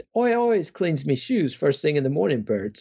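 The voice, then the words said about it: Put-on working-class English accent. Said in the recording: “I'm going to try to imitate his Ernie accent.”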